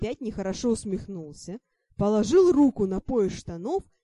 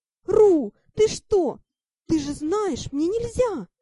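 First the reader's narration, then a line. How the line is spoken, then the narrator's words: Wail. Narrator (Russian): взвыла я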